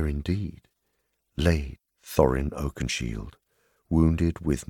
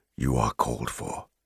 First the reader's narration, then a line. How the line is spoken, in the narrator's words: he said more gravely